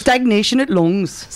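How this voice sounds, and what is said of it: Poor attempt at Yorkshire accent. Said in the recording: “Yorkshire accent ... Can I try one? ... She did a terrible job.”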